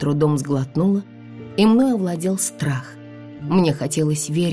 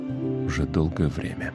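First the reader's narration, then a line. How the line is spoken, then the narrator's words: Quiet. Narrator (Russian): тихо добавил Вит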